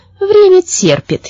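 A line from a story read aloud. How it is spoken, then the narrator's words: Giggling little witch. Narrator (Russian): хихикнула маленькая баба-яга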